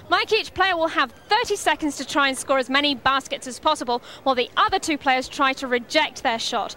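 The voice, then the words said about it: British accent. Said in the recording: “she has a fantastic British accent.”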